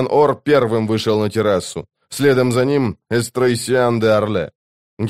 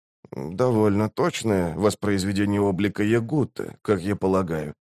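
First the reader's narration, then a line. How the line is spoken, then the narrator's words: Soft. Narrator (Russian): мягко проговорил он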